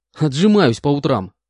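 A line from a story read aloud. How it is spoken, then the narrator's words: Displeased snort. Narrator (Russian): Недовольно хмыкнул я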